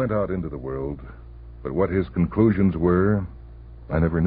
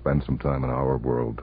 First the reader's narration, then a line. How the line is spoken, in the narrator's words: I said